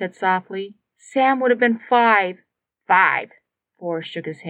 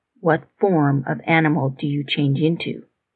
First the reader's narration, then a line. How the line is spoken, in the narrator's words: He asked quietly